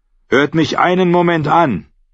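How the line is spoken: Male call. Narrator (German): rief er

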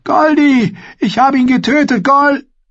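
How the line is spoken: Calling out. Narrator (German): rief er

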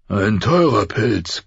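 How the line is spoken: Growling. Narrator (German): knurrte Robert

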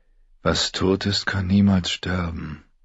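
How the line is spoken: Murmured in unison. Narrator (German): Theon murmelte die Worte mit ihnen

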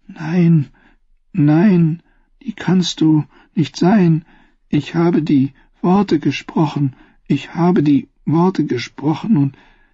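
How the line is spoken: Groaning. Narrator (German): Sam stöhnte

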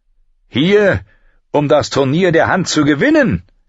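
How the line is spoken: Shouted back over cheering. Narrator (German): rief Lord Beric zurück, als die Menge jubelte

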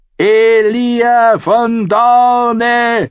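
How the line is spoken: Shouted. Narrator (German): schrie er

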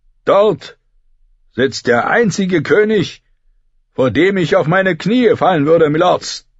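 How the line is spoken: Thundering male voice. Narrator (German): donnerte er

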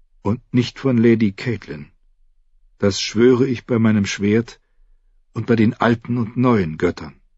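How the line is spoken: Girl answering quietly. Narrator (German): antwortete das Mädchen leise

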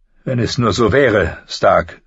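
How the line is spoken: Plain. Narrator (German): sagte Littlefinger

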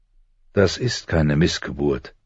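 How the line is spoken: Very calm. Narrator (German): sagte John ganz ruhig

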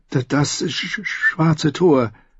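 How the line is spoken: Stammer. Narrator (German): stotterte Sam

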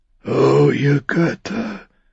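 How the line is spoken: Groaning. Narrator (German): stöhnte er, während sein Unterhemd sich rötete

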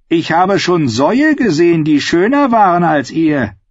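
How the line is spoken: Mocking. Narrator (German): sagte er spöttisch

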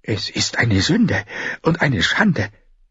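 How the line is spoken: Hissing old man. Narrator (German): zischte ein Greis

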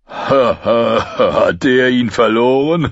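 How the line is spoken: Giggling. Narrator (German): Düven kicherte

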